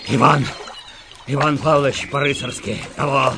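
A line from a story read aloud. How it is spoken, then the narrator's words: Booming, choking male voice. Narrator (Russian): забасил, захлебываясь майор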